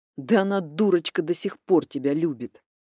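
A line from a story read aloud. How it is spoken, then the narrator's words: Irritated reply. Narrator (Russian): раздраженно ответил я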